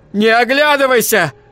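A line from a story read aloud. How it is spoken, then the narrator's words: Yelled. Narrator (Russian): заорал Айзек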